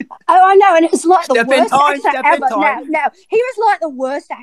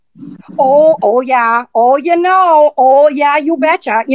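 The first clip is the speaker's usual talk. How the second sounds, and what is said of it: Put-on Minnesota accent. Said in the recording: “What about Minnesota? ... Craig's from, like, Wisconsin, and that one's real close”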